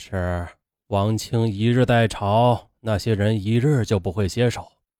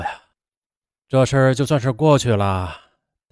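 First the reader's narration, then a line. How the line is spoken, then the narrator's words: Sighing. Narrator (Chinese): 嘉庆皇帝叹口气说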